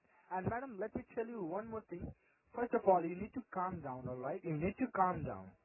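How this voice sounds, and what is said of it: Unusual accent, very fast speech. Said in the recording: “You have an unusual accent, and you speak very fast.”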